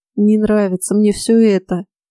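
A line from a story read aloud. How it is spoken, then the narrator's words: Weary moan. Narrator (Russian): Фрей в 1001 раз простонал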